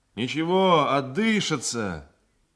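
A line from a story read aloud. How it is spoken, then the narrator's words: Sailor shouting. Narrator (Russian): крикнул мне матрос Поликанов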